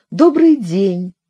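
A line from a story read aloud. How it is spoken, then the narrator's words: Polite social tone. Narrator (Russian): произнесла она светским тоном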